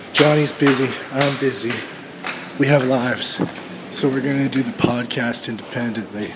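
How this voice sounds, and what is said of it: Voice damaged from too much screaming. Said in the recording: “The fucked up voice. Because that's what my voice is right now. Too much screaming.”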